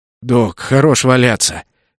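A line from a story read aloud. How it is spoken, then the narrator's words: Hoarse croak. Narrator (Russian): прохрипел я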